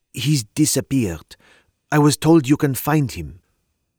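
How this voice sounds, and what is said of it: French woman's accent. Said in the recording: “It was clear from her accent she was from the continent. ... Are you French, mademoiselle? ... I am.”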